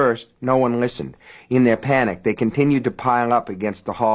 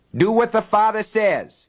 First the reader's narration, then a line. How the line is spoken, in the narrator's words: he roared